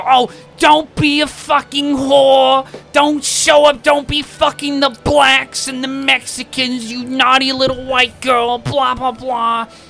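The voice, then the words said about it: Impression of girlfriend's father. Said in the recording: “doing an impression of her dad ... it sounds just like him”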